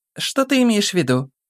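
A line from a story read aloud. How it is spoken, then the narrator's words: Hesitant, uncertain girl. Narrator (Russian): Немного помешков, неуверенно ответила девушка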